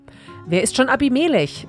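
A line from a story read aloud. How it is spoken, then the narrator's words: Calling out. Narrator (German): rief Gaal, der Sohn von Ebed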